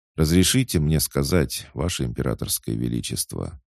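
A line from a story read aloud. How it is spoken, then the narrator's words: Plain question. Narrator (Russian): спросил Максим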